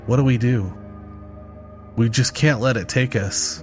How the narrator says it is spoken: Lily's voice quivered as she whispered

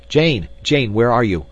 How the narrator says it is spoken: he cried

